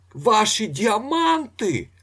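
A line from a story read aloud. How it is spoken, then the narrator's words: Startlingly loud shout. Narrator (Ukrainian): закричав він, лякаючись сили свого голосу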